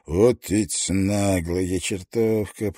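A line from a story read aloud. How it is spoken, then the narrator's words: Grumbling. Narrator (Russian): проворчал он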